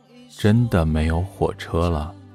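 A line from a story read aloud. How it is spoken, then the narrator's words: Slow speech. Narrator (Chinese): 刘十三缓缓地说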